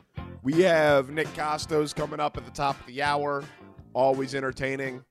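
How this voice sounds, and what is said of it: Voice rough from illness. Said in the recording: “I apologize for my voice, a little bit under the weather.”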